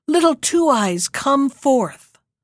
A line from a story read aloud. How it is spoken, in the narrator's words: the knight demanded to see her and called out